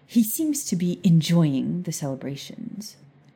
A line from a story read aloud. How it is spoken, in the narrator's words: she said bitterly